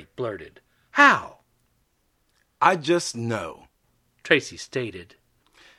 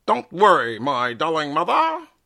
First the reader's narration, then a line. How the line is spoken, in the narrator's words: Tracy said in a vintage 1930s accent